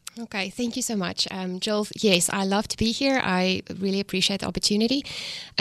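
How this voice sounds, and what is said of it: South African accent. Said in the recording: “your beautiful South African accent”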